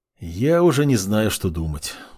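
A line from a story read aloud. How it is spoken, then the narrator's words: Weary. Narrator (Russian): устало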